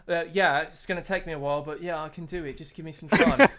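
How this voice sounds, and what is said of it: Put-on British accent. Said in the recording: “Australian now. ... No, she's British. ... That was a very British accent.”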